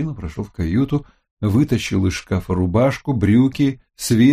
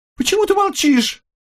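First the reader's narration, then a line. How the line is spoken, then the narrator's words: Shrill squeal. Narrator (Russian): взвизгнула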